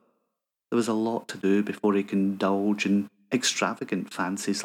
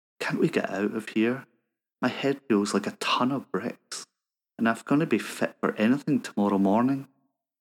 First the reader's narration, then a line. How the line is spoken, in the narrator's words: murmured